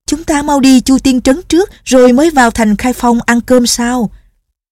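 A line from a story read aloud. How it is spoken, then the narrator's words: Excited cry. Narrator (Vietnamese): Nhạc Linh Sang, cô reo lên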